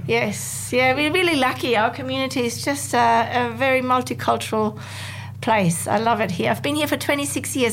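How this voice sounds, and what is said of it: German accent. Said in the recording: “No wonder I can hear the German accent.”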